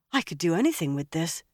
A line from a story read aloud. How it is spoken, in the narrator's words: Nynaeve said in a wondering voice